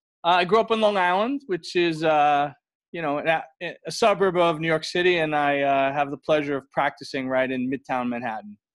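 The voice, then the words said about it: Slight New York accent. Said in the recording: “a little bit of a New York accent”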